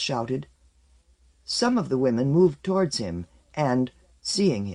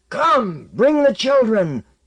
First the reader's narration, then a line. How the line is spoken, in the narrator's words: roared